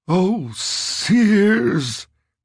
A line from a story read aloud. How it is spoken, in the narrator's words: Ricky said, gasped